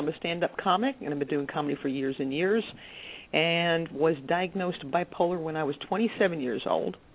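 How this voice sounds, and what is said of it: New Jersey accent. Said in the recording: “I'm originally from New Jersey, which they'll be able to tell by my accent pretty soon.”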